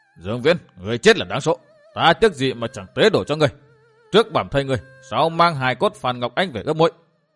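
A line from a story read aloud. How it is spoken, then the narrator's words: Wolf-like howling shout. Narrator (Vietnamese): Độc Bà bằng giọng nói như sói tru giữa trời khuya hét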